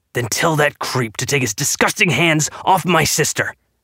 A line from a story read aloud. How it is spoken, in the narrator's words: Bellamy spat